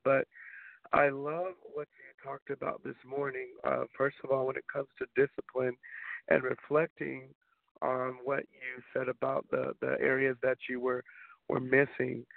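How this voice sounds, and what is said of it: Slightly dry voice. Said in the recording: “My voice is a little dry this morning because I'm working through a cold”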